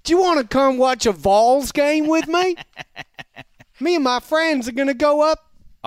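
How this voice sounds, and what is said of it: Put-on American Southern accent. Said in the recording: “an exotic American accent would be like a Southern accent”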